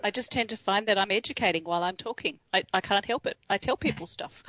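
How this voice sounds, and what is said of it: Australian accent. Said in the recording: “that beautiful Australian accent”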